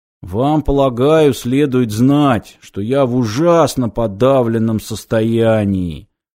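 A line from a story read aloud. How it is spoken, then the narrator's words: Muffled, dull voice. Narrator (Russian): глухо произнес он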